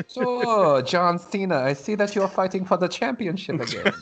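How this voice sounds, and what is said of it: Put-on German accent. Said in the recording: “with German accent all of a sudden”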